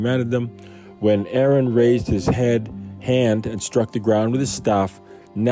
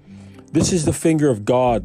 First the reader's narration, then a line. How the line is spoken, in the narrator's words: the magicians exclaimed to Pharaoh